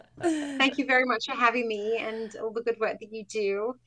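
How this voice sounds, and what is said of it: British accent. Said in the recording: “your beautiful British accent”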